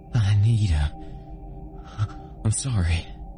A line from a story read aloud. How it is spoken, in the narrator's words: stammered